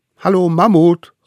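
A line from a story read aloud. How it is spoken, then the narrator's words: Male calling. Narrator (German): rief er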